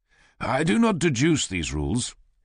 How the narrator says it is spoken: he says

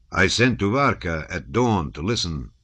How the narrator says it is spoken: his bass boomed out after a minute's pause

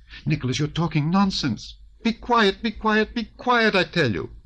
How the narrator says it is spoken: she almost screamed so as to drown his voice

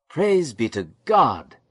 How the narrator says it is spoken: Jacob cried

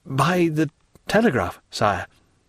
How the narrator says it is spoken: The minister, whilst a deep colour overspread his cheeks, he stammered out

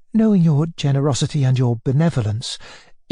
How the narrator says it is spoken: interposed the visitor in a rapid but timid voice

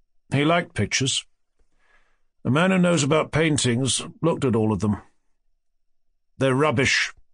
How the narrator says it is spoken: he said

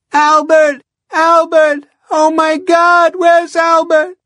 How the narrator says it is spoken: Now the woman was screaming

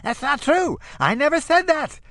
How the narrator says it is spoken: Edward screams in falsetto

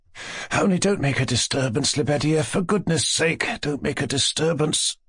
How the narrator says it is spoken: Mushkin said in an undertone with great uneasiness

